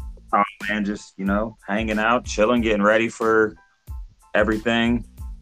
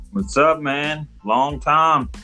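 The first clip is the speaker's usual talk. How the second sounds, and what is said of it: Country-sounding accent. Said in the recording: “sound so country”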